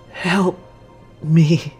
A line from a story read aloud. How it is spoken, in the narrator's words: Vincent gasps